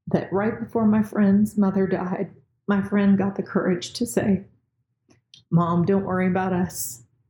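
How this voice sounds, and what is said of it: Choked up, emotional voice. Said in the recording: “I kind of got choked up.”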